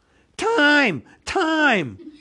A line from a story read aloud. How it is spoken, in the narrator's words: with a sudden squeal